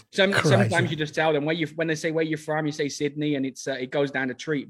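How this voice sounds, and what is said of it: Australian accent. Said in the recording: “I do love your Australian accent”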